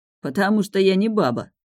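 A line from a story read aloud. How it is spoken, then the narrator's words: Indignant young man. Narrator (Russian): возмущенно ответил парень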